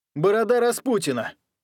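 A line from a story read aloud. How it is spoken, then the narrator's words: Barked. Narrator (Russian): рявкнул Янг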